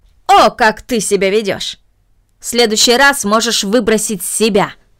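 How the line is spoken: Angry. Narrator (Russian): произнесла мисс Мина, сердито

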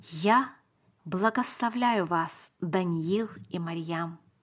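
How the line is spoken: Solemn, gentle. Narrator (Russian): Его лицо приобрело торжественное выражение, и он сказал нам серьезно и мягко

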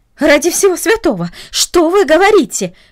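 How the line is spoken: Exclaiming. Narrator (Russian): воскликнула она

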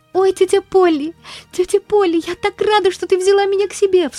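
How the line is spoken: Girl sobbing. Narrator (Russian): всхлипывала девочка

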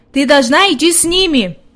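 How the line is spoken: Shout. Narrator (Russian): крикнул он девочке

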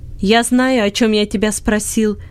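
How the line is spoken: Angry shouting. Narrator (Russian): сердито кричал Бенет

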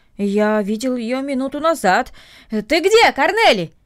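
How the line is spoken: Shout. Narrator (Russian): крикнул

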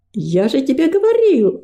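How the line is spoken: Exclaimed. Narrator (Russian): воскликнул Гордость

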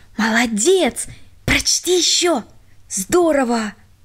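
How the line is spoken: Whispers from all sides. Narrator (Russian): со всех сторон шептали

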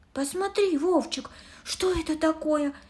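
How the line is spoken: Exclamation. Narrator (Russian): воскликнула она

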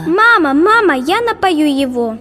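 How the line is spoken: Excited shouting. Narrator (Russian): кричала она

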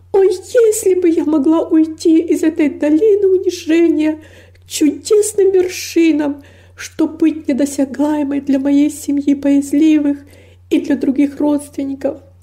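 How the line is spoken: Anguished exclamation. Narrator (Russian): воскликнула с невыразимой тоской

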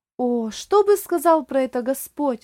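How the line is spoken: Exclaiming. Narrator (Russian): воскликнул Оливер

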